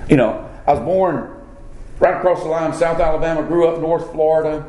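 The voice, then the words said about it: American Southern accent. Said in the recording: “I speak with what's sometimes referred to as a southern accent”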